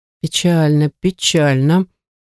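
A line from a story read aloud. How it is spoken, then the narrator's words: Drawling master. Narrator (Russian): протянул мастер Гирвар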